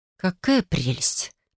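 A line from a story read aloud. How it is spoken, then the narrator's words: Muttering. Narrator (Russian): пробормотала я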